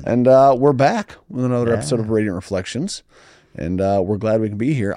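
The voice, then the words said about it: Deep, husky voice from a cold. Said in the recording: “I'm fighting a little bit of a cold, so I've got my late night DJ voice going on here.”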